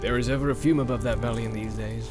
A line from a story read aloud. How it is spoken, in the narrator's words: said Éomer